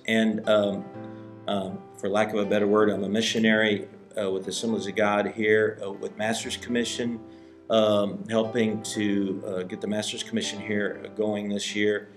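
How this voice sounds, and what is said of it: American English accent. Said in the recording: “I'm from the USA. I'm not Dutch, as you can tell by my voice.”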